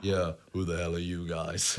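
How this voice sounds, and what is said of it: Impression of a movie superhero's voice. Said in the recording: “you do a great Chris Hemsworth impression. You do a great Chris Hemsworth impression of Thor.”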